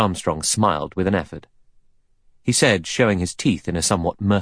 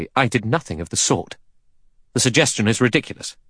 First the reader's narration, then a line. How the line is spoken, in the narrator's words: Armstrong said sharply